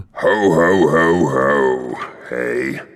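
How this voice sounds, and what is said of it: Hoarse Father Christmas character voice. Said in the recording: “It's Richard Branson with laryngitis. ... No, you fool. It's Father Christmas.”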